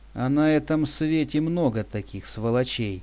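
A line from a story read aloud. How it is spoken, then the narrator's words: Old man's sigh. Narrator (Russian): вздохнул дед Макар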